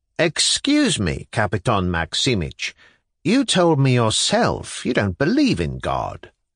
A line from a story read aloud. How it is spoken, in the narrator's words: Liputin piped from the other end of the table